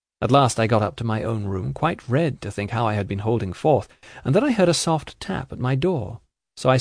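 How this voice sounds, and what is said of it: Usual voice. Nothing is said of it.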